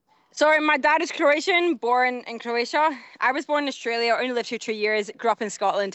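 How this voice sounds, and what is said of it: Scottish accent. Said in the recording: “I wasn't expecting a Scottish accent”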